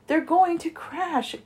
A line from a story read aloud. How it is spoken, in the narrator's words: gasped Stella Luna